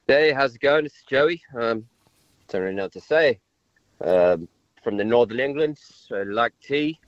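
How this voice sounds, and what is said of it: Convincing English accent. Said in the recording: “is really English ... That is a real English accent”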